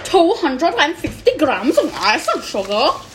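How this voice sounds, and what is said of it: Put-on unidentified accent. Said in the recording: “Don't ask me what accent that was.”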